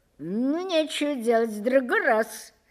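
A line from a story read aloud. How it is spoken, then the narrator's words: Laughing. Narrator (Russian): сказал он, засмеявшись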